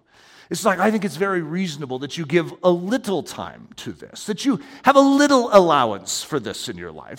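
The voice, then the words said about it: Put-on gentlemanly British-like voice. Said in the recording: “it puts on its gentlemanly voice ... Very gentlemanly, probably even like a British accent, even though it's all fake”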